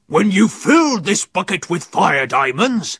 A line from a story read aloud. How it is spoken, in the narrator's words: Captain Claw bellowed